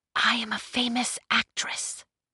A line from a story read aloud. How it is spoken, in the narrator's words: she whispered back